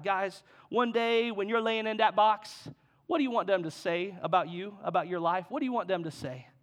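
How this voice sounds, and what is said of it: Attempted Cajun accent. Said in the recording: “he's Cajun, so he's a little accent. I can't do it well, but I'm gonna try.”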